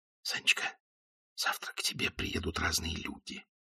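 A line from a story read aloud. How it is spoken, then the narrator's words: Whispered. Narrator (Russian): прошептал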